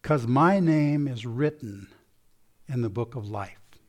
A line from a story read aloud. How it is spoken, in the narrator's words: Quietly, slowly, he answered